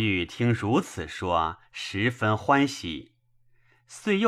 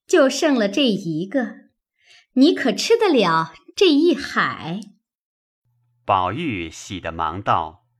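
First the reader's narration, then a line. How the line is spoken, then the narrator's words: Laughing. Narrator (Chinese): 笑道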